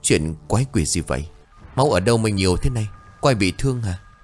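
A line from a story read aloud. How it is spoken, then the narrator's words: Trembling stammer. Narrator (Vietnamese): Tôi lắp bắp run rẩy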